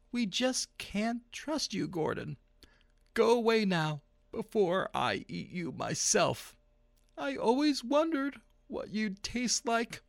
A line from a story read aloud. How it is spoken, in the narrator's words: the principal said, sadly